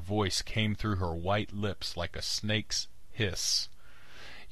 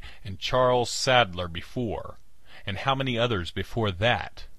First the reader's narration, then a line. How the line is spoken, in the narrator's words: I cried